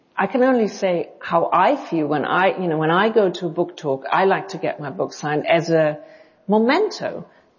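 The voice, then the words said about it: Hard-to-place mixed English-German accent. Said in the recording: “your accent is hard for me to figure out exactly. It's not quite English. It's not quite German. It's like a combination ... I get South African, I get Dutch, I get Scandinavian ... I very rarely get German ... there's some lilt in there that is not English”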